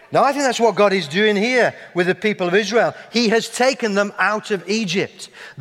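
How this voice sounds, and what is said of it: Yorkshire English accent. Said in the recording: “as people hear my accent ... you can take the man out of Yorkshire, but you just can't seem to get Yorkshire out of the man”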